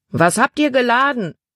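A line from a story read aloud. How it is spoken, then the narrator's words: Man calling. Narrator (German): rief ein Mann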